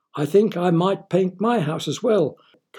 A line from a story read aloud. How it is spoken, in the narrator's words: cried Richard's neighbour on his left